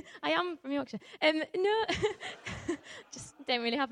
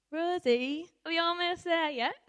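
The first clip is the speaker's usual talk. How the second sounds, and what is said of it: Attempted Yorkshire accent. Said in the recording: “That's my attempt for Yorkshire accent.”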